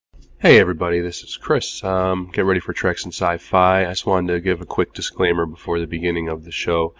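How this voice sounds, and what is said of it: Rough, congested sick voice. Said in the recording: “sorry about my voice. If it messes up at all, I've been battling a cold.”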